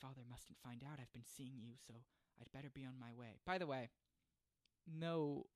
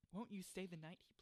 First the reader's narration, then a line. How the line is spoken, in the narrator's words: he pleaded